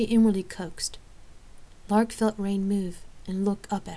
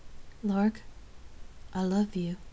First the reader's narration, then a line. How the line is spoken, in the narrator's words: softly and wholeheartedly professed